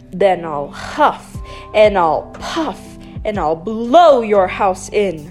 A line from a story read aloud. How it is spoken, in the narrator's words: roared the wolf